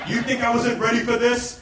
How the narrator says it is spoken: Trump yelled

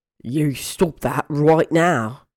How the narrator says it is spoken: Ron growled

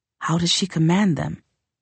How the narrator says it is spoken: Dekka murmured

